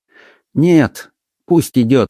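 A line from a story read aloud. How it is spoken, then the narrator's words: Said with deep sigh. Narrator (Russian): сказал отец Браун и вздохнул так глубоко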